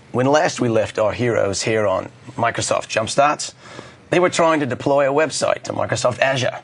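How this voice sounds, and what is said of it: Sore-throated voice, vague accent. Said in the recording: “I, in fact, have got a sore throat, and I'm going to be basically speaking in a non-specific accent for the rest of the day.”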